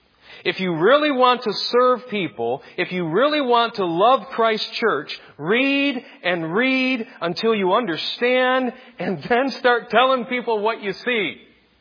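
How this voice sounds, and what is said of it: Loud, pleading yelling. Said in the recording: “you're yelling again. I know. I'm sorry. ... But I'm pleading with you. Hear the plead in my voice.”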